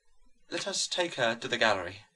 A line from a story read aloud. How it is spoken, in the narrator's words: murmured the mother of this son who was thus dead and alive